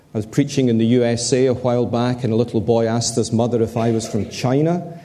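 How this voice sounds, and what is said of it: Mellifluous Glasgow Scottish accent. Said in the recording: “my educated, mellifluous Glasgow accent”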